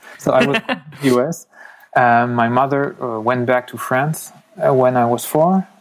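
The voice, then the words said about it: Strong French accent in English. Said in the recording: “I know my accent sounds really French”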